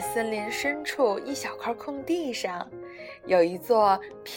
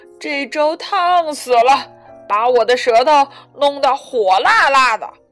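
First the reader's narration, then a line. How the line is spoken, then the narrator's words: Big bear roaring. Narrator (Chinese): 大块头的熊爸爸咆哮起来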